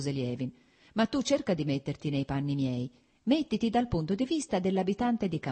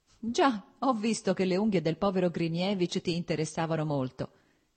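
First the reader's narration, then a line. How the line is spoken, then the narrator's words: Laughing. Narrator (Italian): disse ridendo Stepan Arkadich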